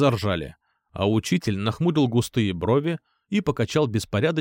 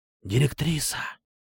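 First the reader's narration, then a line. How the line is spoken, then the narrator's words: Murmured whisper. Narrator (Russian): пронесся по рядам шепоток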